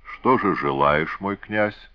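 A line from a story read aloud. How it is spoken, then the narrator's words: Gentle question. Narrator (Russian): ласково спросил Луарсаб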